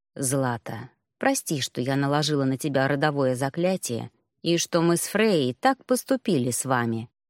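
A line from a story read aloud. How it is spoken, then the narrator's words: Quiet speech. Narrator (Russian): тихо произнесла богиня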